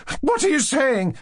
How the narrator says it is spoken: she cried, starting

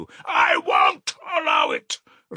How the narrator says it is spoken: Raskolnikov shouted again

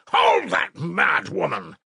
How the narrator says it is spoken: he shouted

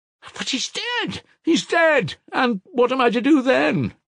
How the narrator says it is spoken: cried Mitya frantically

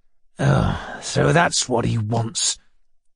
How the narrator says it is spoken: he muttered in a fury

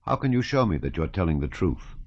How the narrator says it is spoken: said Davout coldly

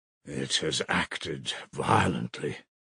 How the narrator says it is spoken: Svidrigailov muttered to himself, frowning

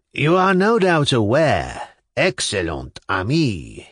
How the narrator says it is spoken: he said jauntily and coquettishly, drawling his words

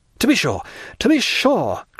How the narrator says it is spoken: cried Dantès, eagerly

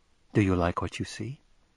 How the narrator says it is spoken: she murmured

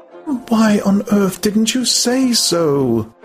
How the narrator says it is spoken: She cried, and so intense was her exasperation

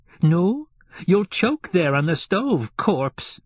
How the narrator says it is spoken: cried Fiekla angrily

